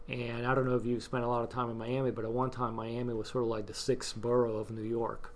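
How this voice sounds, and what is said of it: New York accent. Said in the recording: “sometimes people think that I have a New York accent ... who's this New York guy they're interviewing?”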